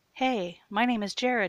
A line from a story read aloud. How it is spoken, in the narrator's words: he called out through the passenger side window